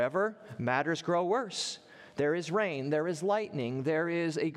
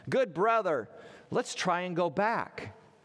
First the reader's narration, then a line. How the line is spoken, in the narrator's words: Christian exclaimed